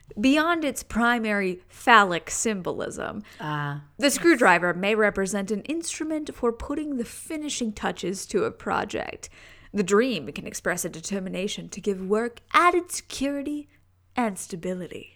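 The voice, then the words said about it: Announcer-style radio voice. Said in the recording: “radio voice”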